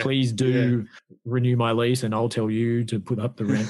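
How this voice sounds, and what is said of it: Flat, emotionless robotic delivery. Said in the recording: “you were almost doing an impersonation there of Janet from accounting in The Good Place ... I'm showing no emotion, end of conversation, end of message”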